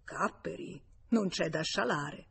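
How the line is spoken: Murmur. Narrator (Italian): Forestier mormorò

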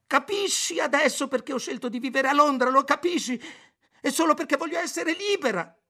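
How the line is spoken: Yelling. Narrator (Italian): urlò

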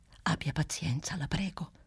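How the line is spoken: Whispering. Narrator (Italian): bisbigliava Clelia Trotti

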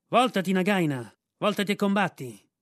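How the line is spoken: Shouted. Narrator (Italian): Rikki-tikki, che gridò

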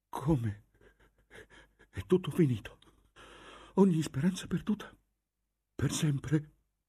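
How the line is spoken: Dazed stammering. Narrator (Italian): balbettò Agnese inebetita

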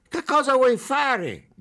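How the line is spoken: Fat policeman shouting. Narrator (Italian): gridò il poliziotto grasso, che si chiamava qualcosa tipo Zuzugoitea

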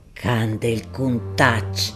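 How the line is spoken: Furious growl. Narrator (Italian): ringhiò Gaudenzio infuriato

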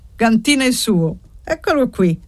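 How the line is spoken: Exclaimed. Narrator (Italian): esclamò zio Castigo

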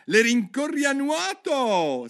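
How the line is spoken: Griffin's shriek. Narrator (Italian): strillò il grifone

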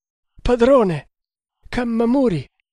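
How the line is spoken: Desperate sobbing exclamation. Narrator (Italian): esclamò, piangendo disperatamente

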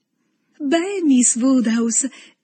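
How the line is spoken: Exclaiming. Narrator (Italian): esclamò Harriet

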